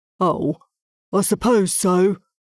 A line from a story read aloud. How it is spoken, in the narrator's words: Ronald mumbled as he walked away, munching on another mouthful of fresh grass